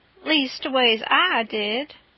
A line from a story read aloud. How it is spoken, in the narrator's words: the king drawls out